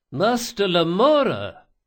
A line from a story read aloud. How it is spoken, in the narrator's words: cried Ibelius